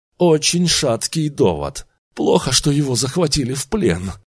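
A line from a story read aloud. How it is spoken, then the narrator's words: Sigh. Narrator (Russian): вздохнул Эдвардсон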